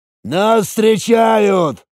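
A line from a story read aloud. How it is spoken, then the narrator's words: Shouting. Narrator (Russian): крикнул Ган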